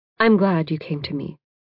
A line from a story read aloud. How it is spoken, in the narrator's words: Professor Gibson says firmly